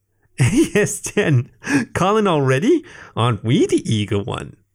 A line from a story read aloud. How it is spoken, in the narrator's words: he said with a giggle